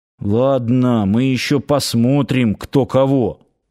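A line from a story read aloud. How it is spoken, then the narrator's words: Grumbling under breath. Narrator (Russian): буркнул он под нос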